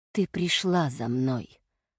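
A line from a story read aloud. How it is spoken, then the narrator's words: Quiet, demon. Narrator (Russian): бес тихо не сказал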